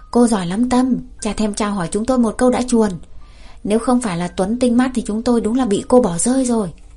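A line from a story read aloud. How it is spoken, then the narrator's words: Loud shout. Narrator (Vietnamese): Vân, anh ta hét lớn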